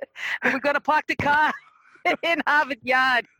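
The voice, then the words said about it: Put-on Boston accent. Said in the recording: “being Bostonian... I took days of elocution lessons to get rid of this accent.”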